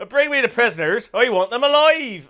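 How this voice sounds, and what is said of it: West Country farmer accent. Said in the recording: “A man from the West Country. ... Farmer accent”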